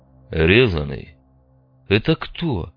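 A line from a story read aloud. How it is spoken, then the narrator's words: Unpleasant voice. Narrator (Russian): спросил Крепыш неприятным голосом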